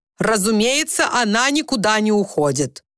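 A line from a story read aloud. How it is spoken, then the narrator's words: Loud. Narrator (Russian): громко произнес Уимис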